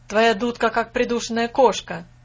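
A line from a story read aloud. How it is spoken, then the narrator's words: Shouted. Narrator (Russian): крикнул, входя Фас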